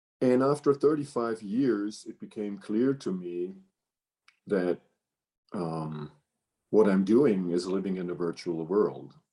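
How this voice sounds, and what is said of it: German accent in English. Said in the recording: “I'm born in Germany and raised in Germany and worked my professional life in Germany, as many people can hear on the accent.”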